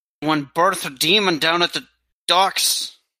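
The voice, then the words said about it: Put-on Scottish or Irish accent. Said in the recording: “I just changed accents again... You're starting to sound like you're from Scotland or Ireland.”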